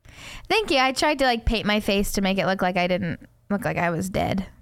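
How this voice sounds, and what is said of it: Congested voice with a cold. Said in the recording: “I have a little bit of a cold,... Even though you're kind of sounding like you want to be.”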